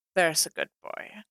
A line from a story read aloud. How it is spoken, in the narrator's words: Clint murmured